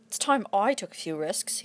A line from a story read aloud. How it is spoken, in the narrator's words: grumbled